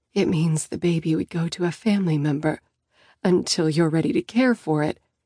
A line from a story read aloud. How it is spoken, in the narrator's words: I whisper